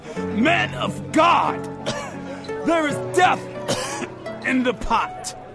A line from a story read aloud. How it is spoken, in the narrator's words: they cried out